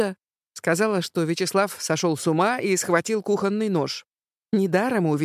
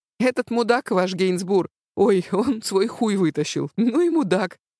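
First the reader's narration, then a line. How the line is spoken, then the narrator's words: Laughing, not offended. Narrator (Russian): Он, видимо, был не очень обижен, потому что все-таки смеялся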